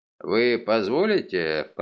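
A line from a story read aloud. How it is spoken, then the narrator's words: Mumbling. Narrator (Russian): пробормотал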